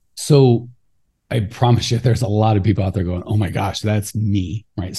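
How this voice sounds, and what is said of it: Usual voice. Nothing is said of it.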